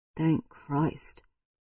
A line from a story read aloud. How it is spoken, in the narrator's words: Braden muttered